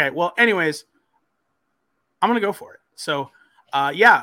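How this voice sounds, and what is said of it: Usual voice. Nothing is said of it.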